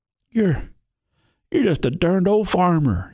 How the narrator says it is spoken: he gasped

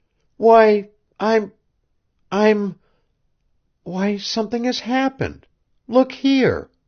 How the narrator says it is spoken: she exclaimed, turning pale

